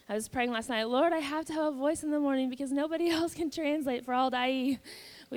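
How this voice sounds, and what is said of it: Rough, worn voice. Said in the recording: “My voice is a little rough this morning.”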